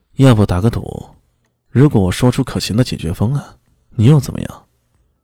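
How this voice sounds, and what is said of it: Lazy, drawling voice. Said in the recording (Chinese): “懒洋洋的声音说道”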